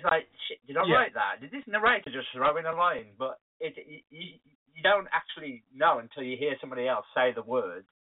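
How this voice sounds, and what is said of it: Thick Wolverhampton accent. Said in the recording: “I have a very thick Wolverhampton accent, so it doesn't really translate well to radio.”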